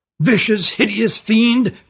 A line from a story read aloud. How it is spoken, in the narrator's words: cried Tally